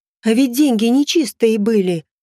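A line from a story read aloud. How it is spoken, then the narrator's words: Old woman exclaiming. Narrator (Russian): воскликнула старушка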